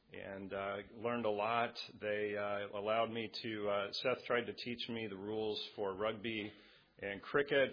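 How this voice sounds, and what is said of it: American accent. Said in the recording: “he never taught me an Australian accent, so I apologize for my American accent”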